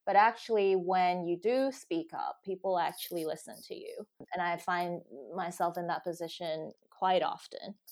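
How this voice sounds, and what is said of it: American accent. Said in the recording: “with an American accent ... have this American accent”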